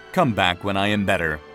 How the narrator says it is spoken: Christine said

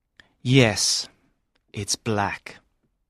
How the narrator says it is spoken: said Richard

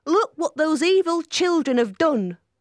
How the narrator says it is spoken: cried Joseph

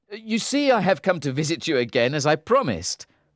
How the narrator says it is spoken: said cheerfully

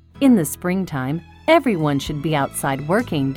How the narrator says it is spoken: Dickon said

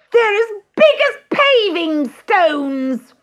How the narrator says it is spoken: shrieked Gertrude

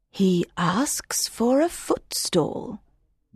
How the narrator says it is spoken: the woman said quietly

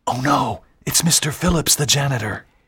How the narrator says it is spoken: Walter whispered

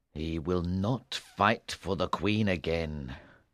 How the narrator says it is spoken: King Arthur said bitterly

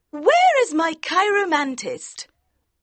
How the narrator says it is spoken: in her high voice asked

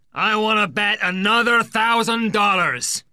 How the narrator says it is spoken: he shouts defiantly

